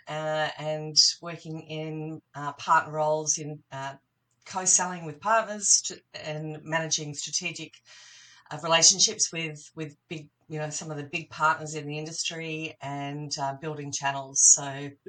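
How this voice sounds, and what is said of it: Australian accent. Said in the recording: “from your accent, the community will realize that you're from Australia”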